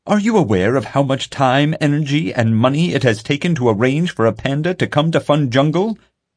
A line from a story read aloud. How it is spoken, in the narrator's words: Pete yelled